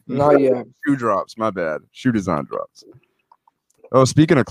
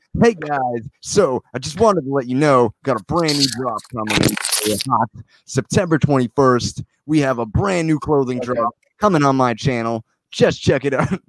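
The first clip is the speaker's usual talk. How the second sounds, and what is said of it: Imitates another person's voice. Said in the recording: “do the Isaac voice... I was doing the Isaac voice”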